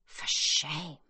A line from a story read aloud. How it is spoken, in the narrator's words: Yitzhak mutters